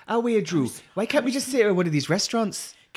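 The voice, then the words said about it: Put-on Newcastle Geordie accent. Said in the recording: “Newcastle.”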